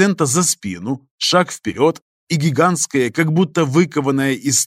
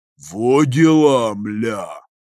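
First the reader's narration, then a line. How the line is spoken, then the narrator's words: Grumbling. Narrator (Russian): пробурчал господин Дрон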